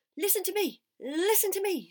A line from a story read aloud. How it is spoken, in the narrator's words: screamed the goose